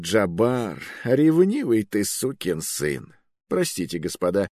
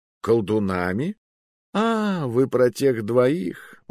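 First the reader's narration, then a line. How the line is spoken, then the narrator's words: Sigh. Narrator (Russian): вздохнул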